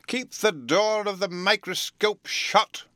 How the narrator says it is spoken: cried

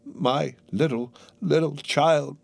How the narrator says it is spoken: cried Bob

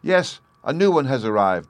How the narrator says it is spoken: the other children shouted joyously

